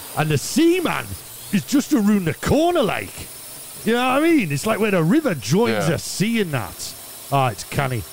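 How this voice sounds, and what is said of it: Put-on Geordie accent. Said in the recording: “I've only got two more days of doing a Geordie accent.”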